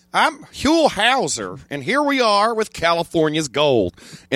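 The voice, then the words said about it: Exuberant imitation of another person's voice. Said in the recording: “I did an impression of Huel ... doing the voice ... he was so exuberant”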